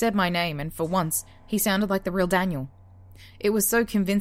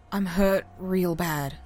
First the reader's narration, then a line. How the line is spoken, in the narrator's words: he groaned